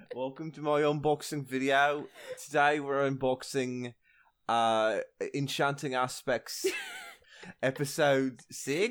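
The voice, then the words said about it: Exaggerated YouTuber presenter voice. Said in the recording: “do my YouTube voice ... My frankly awful YouTube voice.”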